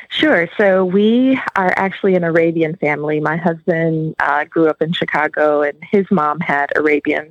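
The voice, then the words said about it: Wisconsin accent. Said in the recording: “you have more of the Wisconsin accent than the Southern accent”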